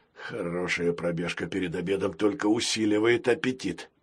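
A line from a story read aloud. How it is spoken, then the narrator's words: Pirate's whisper. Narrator (Russian): прошептал пират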